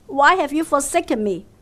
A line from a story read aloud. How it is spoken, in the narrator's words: we shout in anguish